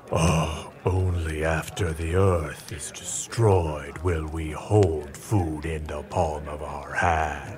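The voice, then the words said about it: Imitates a menacing dark lord voice. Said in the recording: “is everyone doing their Dark Lord impersonation? ... that's good. That's really good.”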